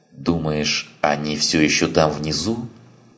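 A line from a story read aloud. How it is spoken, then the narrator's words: Plain female fighter. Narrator (Russian): спросила женщина-боец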